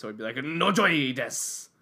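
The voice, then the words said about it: Put-on Japanese accent. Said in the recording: “In a Japanese accent? ... Yeah.”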